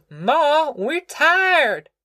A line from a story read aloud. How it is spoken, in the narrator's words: Ruthie wailed